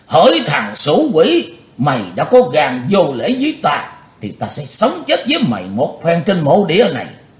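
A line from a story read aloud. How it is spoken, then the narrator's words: Hateful loud shout. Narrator (Vietnamese): lão ác đạo căm thù hét lớn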